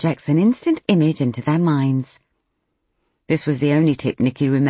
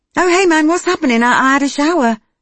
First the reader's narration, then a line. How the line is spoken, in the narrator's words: she blurted